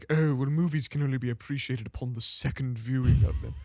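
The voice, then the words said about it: Posh British accent. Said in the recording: “That's a really good posh accent. ... That really was. ... You hit that. ... all the British accents”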